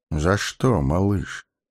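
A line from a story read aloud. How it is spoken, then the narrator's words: Gentle question. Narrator (Russian): ласково спросил маг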